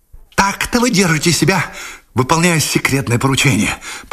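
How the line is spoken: Hissed. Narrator (Russian): прошипел он

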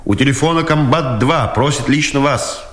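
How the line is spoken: Distant shout. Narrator (Russian): издри крикнул Дудкин

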